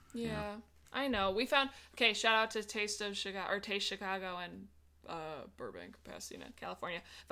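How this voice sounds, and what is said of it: Chicago accent. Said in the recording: “I have friends that call me Chicago in LA because I can hear my accent”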